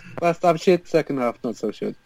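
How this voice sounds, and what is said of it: Generic foreign accent. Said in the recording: “That's a good Spanish accent. ... It wasn't supposed to be Spanish. ... Just generic foreign.”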